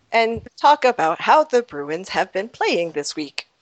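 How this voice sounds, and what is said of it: Robotic voice. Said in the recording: “talk like a robot”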